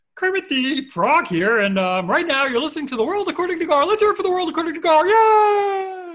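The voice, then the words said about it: Kermit the Frog puppet voice. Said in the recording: “I can do a Kermit impression. ... That was pretty solid. ... A little crack ... Kermit cracks every now and then.”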